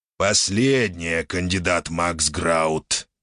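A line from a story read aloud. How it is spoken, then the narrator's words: Displeased growl. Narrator (Russian): недовольно прорычало существо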